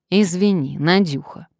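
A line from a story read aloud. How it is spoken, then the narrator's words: Said very loudly. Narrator (Russian): проговорила Варвара в свойственной ей манере, при этом очень громко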